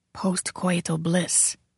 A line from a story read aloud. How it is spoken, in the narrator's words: whispered Serrani